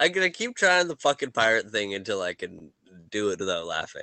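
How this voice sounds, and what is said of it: Usual voice. Nothing is said of it.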